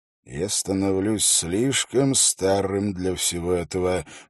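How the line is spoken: Muttering under breath, proud. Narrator (Russian): пробормотал Холт под нос, но в то же время его переполняла гордость за Хороса и Уилла

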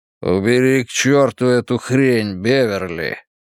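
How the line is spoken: Growled. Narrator (Russian): прорычал он

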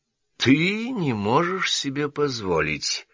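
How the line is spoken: Thoughtful repetition. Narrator (Russian): задумчиво повторил доктор Акрингтон

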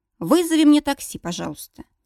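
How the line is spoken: Calm. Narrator (Russian): спокойно, без истерик, заявляю

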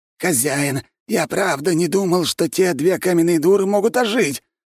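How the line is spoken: Sudden loud yell. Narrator (Russian): заорал вдруг Градовский так, что я аж вздрогнул

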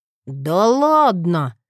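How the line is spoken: Incredulous snort. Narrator (Russian): недоверчиво хмыкнул Эшли

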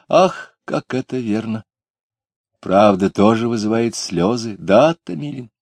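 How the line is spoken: Sad. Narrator (Russian): Таня Куликова печально сказала

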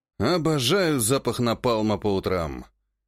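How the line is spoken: Deep sigh, then coughing. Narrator (Russian): Глубоко вздохнул, после чего сразу же зашелся в кашле

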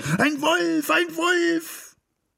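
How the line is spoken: Screaming with full force. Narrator (German): Ich schrie aus Leibeskräften

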